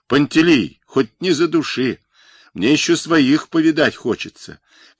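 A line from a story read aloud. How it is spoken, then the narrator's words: Shouting while struggling. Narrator (Russian): кричал Микола Остапец, вырываясь из медвежьих лап желудя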